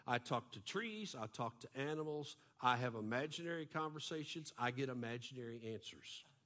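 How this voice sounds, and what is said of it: Texan accent. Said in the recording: “Can't somebody fix this guy's accent? If you're from Texas, you have to sound this way.”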